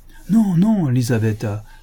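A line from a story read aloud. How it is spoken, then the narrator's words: Exclaimed. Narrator (French): s'écria le Sidelets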